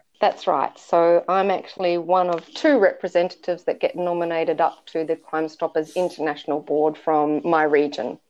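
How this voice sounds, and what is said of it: Australian accent. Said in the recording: “you are currently in Australia... that kind of explains the accent”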